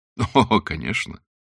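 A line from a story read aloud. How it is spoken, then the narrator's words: Laughing. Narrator (Russian): засмеялся капитан Блад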